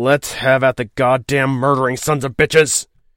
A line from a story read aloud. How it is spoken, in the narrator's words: he snarled, enraged to blasphemy by what they were doing to his family and to his ship